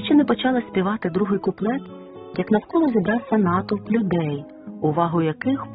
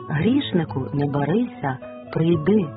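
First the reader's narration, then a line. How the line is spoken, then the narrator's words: Tender loving call. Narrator (Ukrainian): Ніжно з любов'ю Ісус закликає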